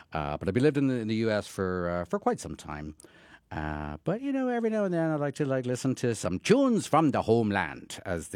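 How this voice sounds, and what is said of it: Irish accent. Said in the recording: “in case maybe you can tell by the accent, I am actually Irish.”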